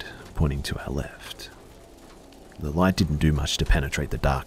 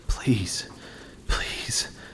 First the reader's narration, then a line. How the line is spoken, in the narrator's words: I muttered under my breath